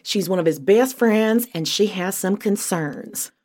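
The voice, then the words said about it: Bad put-on southern accent. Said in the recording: “a really fun southern accent ... I won't put my horrible southern accent on you anymore”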